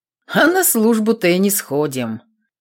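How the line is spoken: Snort. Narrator (Russian): хмыкнул Степан

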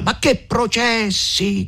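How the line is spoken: Shouting louder. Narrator (Italian): gridava più forte il conte Attilio

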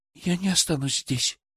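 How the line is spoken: Quiet. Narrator (Russian): тихо произнесла Даша

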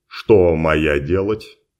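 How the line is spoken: Calm question. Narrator (Russian): спокойно уточнил Ричард

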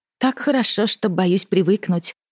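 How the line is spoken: Muffled contented purr. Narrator (Russian): промурлыкала, зарывшись носом в пушистые перья

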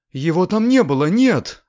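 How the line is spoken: Exclaiming. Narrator (Russian): воскликнула Белла

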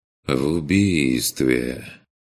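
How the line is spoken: Heavy sighing. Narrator (Russian): повторил Курт, тягостно вздохнув

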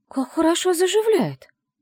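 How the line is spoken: Exclaiming. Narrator (Russian): воскликнула она

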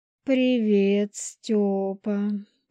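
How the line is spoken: Drawled. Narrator (Russian): протянула

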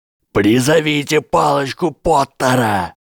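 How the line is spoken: Shouting. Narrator (Russian): профессор Флитвик уже закричал

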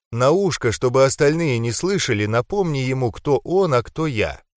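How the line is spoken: Calm reply. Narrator (Russian): спокойно ответил я

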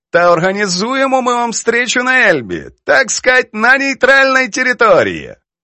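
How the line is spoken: Laughing. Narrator (Ukrainian): розсміялася Прохорова

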